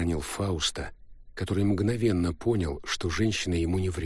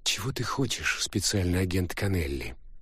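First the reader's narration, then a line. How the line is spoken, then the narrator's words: Soft question. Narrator (Russian): мягко спросила женщина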